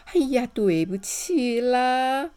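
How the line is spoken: Suppressed snickering. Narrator (Chinese): 村长一边偷笑一边说

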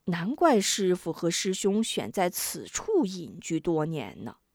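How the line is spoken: Sighing. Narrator (Chinese): 吴中不由叹道

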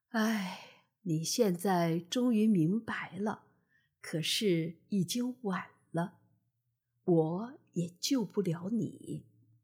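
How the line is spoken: Sighing. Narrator (Chinese): 他叹了叹气说

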